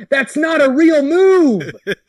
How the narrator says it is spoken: Colt yell

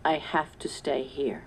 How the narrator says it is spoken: he said softly

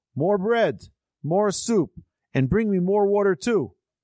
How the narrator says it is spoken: He banged on the table and yelled

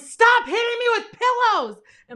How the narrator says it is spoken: yelling

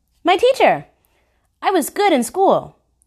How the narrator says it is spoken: Rainey chirped

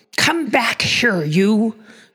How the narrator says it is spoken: cried Professor Hinkle

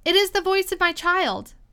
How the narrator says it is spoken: the White Queen cried out

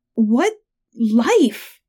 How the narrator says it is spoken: I sputtered

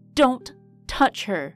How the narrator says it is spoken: Fauna growled angrily

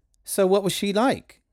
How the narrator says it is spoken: Sarah asked

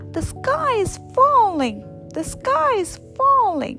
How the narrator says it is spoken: Chicken Little and Henny Penny screamed as they ran

